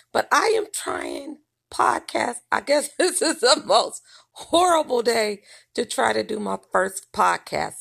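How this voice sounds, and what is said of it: Voice sounds rough or off. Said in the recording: “Pardon my voice”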